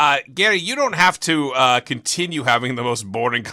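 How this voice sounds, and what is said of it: Usual voice. Nothing is said of it.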